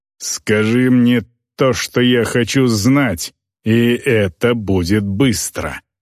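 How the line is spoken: Female orc's growl. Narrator (Russian): прорычала орка

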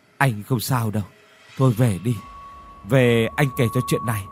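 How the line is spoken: Trembling voice. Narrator (Vietnamese): Lò run run nói

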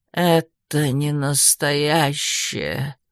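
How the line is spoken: Hoarse rasp. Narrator (Russian): прохрипел

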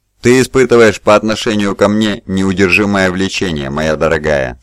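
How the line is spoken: Plain. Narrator (Russian): сказал он

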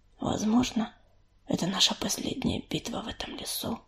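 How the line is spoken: Near whisper. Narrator (Russian): почти шепотом произнес Огнезвезд

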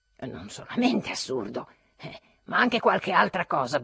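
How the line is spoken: Grumbled. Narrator (Italian): brontolò Trudoliubov

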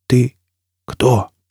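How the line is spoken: Hoarse rasp. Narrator (Russian): прохрипел Фойл

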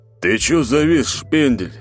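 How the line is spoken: Deep voice close to ear. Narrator (Russian): Пробасил, едва ли не касаясь моего уха своими губами, новый урод

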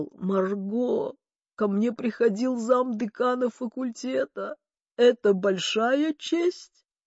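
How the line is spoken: Groaned. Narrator (Russian): Он простонал

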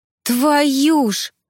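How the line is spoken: Strained exclamation while dodging. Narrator (Russian): воскликнула, с трудом уворачиваясь от огромной алебарды

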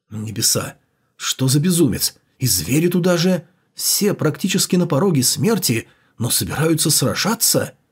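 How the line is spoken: Muttering. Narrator (Russian): пробормотал

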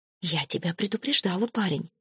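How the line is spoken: Whispered. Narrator (Russian): шепотом говорила ему Фрида

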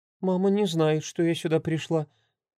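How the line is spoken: Timid hopeful voice. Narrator (Russian): робко начала с надеждой

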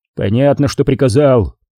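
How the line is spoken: Grumbling. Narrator (Russian): проворчал Хачериди

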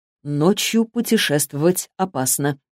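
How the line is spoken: Gentle, reassuring. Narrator (Russian): мягко сказал Элдридж, заметив ее волнение

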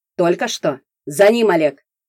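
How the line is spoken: Barked. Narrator (Russian): рявкнул Воронин

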